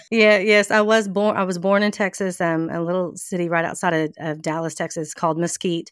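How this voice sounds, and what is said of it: Southern American accent. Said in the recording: “are you a Southern Belle? Because I can hear it in your accent”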